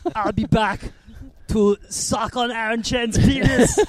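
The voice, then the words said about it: Arnold Schwarzenegger impression. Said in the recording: “that impression echoing off of the MCG ... my Arnie impression”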